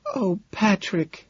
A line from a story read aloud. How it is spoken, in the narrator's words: she sighs